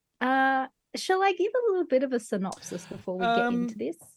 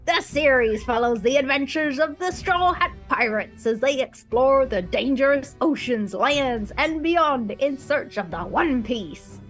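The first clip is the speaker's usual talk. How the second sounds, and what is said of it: Pirate voice. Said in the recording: “How about I just do a pirate voice? ... Yar! Do it in pirate. Talk like a pirate.”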